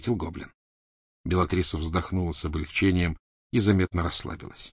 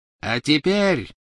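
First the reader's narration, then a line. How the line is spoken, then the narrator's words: Triumphant ringing proclamation. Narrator (Russian): победно звенящим голосом провозгласила она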